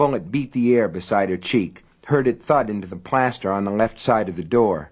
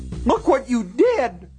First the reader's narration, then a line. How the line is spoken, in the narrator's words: Myra shrieked